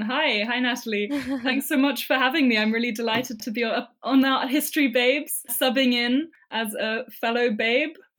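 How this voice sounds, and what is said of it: British accent. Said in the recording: “adorable accent ... very, very British”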